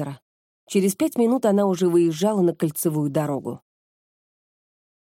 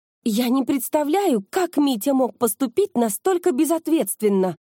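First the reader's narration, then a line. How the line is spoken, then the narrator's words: Woman's exclamation. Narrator (Russian): воскликнула она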